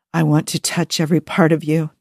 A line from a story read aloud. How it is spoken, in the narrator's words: Joe whispers